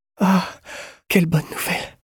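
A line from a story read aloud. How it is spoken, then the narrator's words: Relieved sigh. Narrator (French): soupira, soulagée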